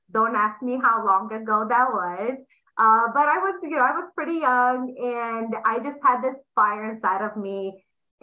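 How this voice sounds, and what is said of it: Romanian accent. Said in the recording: “they're going to pick up on the accent. I'm from Romania.”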